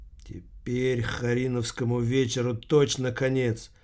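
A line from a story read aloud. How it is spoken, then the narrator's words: Teacher's gloomy whisper. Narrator (Russian): мрачно прошептал учитель Воркута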